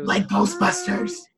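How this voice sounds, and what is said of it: Odd excited voice. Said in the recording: “Don't ever do that voice again. That was fucked up. ... That was my excited voice.”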